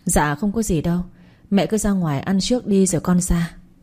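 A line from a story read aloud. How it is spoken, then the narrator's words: Sighing reply. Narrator (Vietnamese): tôi thở dài đáp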